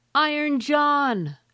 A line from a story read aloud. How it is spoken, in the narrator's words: 3 times so loudly that it echoed through the trees